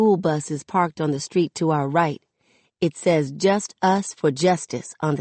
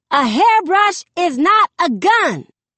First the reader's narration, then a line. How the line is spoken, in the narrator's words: the voice snaps